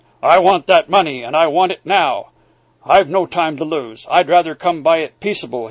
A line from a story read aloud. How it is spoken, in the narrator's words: he growled